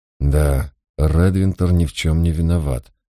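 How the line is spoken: Inward sigh. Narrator (Russian): вздохнул я про себя

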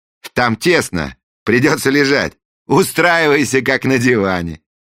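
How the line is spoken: Cheerful instruction, prince. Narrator (Russian): весело проинструктировал принц

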